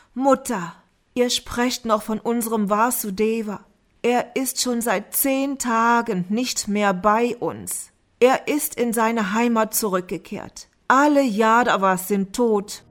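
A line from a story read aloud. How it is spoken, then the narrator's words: Groaning while sobbing. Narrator (German): Dharmaraja stöhnte unter Schluchzen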